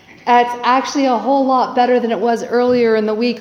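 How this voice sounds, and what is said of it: Voice sounds a little off. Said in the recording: “my voice is a little off today”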